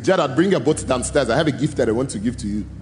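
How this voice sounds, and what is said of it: Thick African accent. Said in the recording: “I hear this thick African accent from downstairs call up to me”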